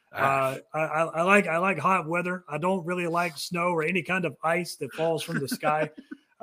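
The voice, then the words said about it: Southern American accent. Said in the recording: “if you can't tell by the accent, I'm a Southern boy”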